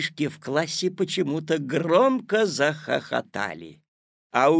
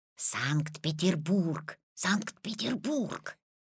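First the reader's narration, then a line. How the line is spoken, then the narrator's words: Old man whispering. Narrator (Russian): зашептал Петин прапрадедушка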